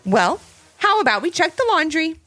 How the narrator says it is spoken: yelled Ivy

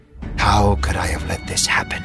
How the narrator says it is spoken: he whispered to himself

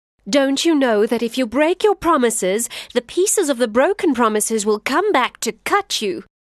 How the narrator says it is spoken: The lion laughed

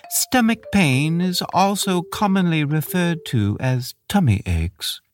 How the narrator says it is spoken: the beetle said earnestly

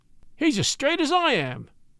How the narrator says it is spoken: cried Dickon

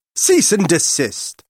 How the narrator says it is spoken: snapped

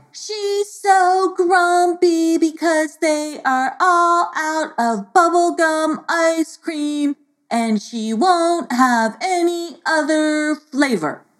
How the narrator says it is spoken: Xiaoteen shouted

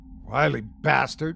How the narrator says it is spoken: muttered someone else

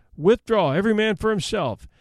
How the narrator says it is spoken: Masny, wounded in the arm, shouted

